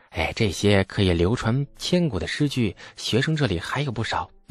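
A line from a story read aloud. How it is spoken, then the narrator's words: Hushed whisper. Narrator (Chinese): 这李素压低了声音，凑到郭奴耳边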